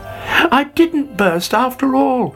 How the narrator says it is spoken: cried delightedly

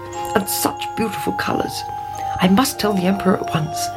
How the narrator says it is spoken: he muttered

